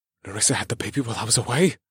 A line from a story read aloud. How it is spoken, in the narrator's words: I gasped as tears filled my eyes